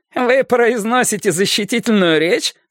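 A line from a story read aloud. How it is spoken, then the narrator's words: Snorted. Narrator (Russian): фыркнул Спрэг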